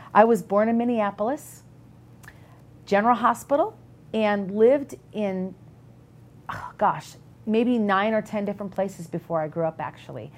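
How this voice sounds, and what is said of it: Minnesota Midwestern accent. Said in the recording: “if you can tell by my accent... So right there, you can hear my accent... Minnesota, a Midwestern girl”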